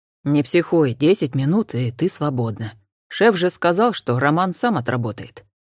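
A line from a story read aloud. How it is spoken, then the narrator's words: Quiet. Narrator (Russian): тихо сказал Олег Анфисе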